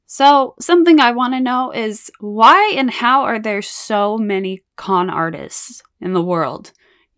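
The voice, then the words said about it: Scratchy, hoarse voice. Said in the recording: “Please pardon my voice. It's a little extra sexy this episode because I have allergies and my throat is scratchy and I can barely talk.”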